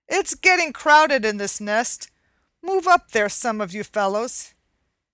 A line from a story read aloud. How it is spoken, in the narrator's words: Cluckety Cluck, the oldest egg of all, called out angrily